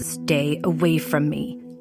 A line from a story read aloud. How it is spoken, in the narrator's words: Nolan growled